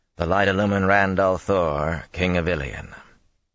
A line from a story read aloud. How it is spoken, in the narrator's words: he intoned